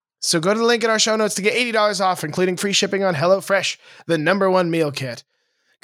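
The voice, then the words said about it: Raspy, hoarse voice. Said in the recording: “I hear the sound of my own voice and threw myself off there. I am a raspy boy today ... I've lost my voice.”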